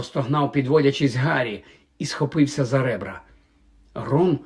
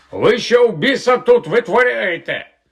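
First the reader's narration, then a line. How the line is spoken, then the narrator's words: Guard's shout. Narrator (Ukrainian): вокзальний охоронець закричав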